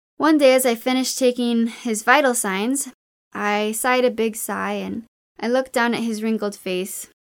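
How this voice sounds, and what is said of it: American accent. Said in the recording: “my American accent”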